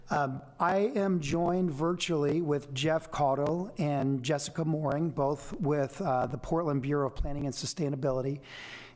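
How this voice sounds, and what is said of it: Strained voice. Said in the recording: “my voice is a little strained today ... it's been strained for quite some time”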